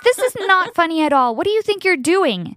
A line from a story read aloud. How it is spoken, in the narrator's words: I yelled at her